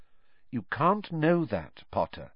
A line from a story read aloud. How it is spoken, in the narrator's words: said Professor McGonagall, quite kindly